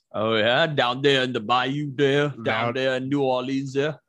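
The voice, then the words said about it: Put-on deep Southern accent. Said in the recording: “I don't know what fucking accent that was ... It's an accent from the deep south ... Deep southern accent ... It had the ... twist on it.”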